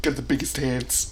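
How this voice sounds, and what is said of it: Imitates another person's voice. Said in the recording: “Donald Trump voice... in your Donald Trump voice”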